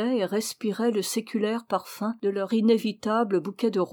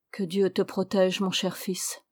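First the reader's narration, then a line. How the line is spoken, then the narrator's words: Tearful murmur. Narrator (French): murmura-t-il, pendant qu'une larme furtive mouillait le bord de sa paupière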